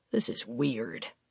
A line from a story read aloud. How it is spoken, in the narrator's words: Carr muttered